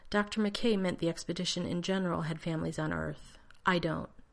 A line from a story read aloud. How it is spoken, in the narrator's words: Keeping his voice even, John said